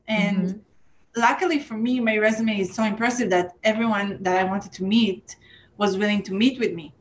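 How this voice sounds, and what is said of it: Non-native English accent. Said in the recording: “I have an accent. My English is not perfect.”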